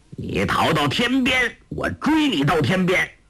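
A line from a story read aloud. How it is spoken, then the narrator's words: Calling out. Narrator (Chinese): 欧阳锋的声音叫道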